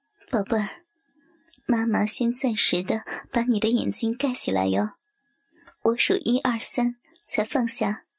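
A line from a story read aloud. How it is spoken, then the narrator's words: Low, gentle voice. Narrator (Chinese): 低声的对书明说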